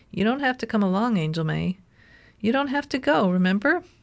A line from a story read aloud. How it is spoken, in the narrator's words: he said sweetly